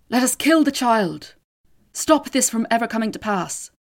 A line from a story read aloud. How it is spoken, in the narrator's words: One man cried out